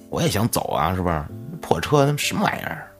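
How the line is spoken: Irritated muttering. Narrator (Chinese): 小马也非常烦躁的嘟囔

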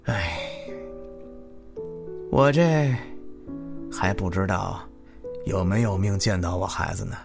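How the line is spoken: Heavy sighing. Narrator (Chinese): 长吁短叹着

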